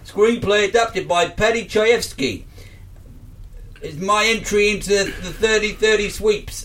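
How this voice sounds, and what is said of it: Put-on accent that falls apart. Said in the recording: “My accent just fell apart there.”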